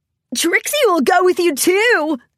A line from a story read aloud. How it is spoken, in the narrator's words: Trixie exclaimed